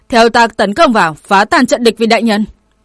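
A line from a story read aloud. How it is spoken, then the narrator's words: Woman's loud command. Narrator (Vietnamese): Cường giả dẫn đầu cũng là một nữ tử linh, lớn tiếng quát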